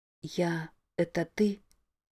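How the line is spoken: Whisper. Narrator (Russian): прошептала она

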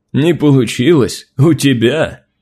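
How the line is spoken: Booming laughter. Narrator (Russian): Могучий воин гулко расхохотался

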